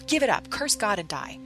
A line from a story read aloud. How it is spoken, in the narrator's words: she snapped, now shrill